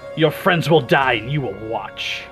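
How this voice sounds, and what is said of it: Screamed villain character voice. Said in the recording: “screaming ... in my horrible Loth voice.”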